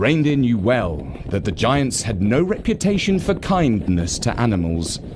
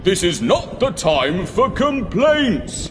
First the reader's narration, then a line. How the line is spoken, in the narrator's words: shouted back Father Christmas